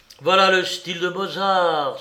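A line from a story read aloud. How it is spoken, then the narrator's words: Exclaimed. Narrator (French): s'écria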